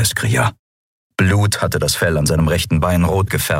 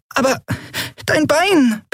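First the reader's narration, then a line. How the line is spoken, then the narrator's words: Squeak. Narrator (German): piepste Nelen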